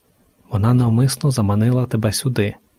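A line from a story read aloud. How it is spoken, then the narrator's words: Whispering inner voice. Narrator (Ukrainian): прошепотів голос у її голові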